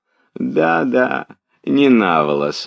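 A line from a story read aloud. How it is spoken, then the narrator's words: Laughing reply. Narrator (Russian): отвечал, смеясь, князь Василий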